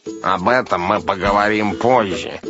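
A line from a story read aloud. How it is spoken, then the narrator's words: Grumble. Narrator (Russian): буркнул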